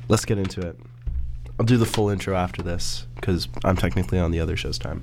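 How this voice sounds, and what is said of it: Sick-sounding voice. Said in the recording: “I don't know if you can tell by my voice, but I'm recovering from a cold right now.”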